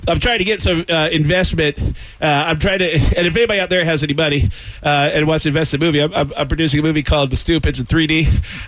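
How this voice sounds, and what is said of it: Out of breath, winded. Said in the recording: “why am I out of breath? ... seeing a little winded,”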